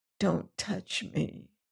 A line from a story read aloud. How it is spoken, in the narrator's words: she whispered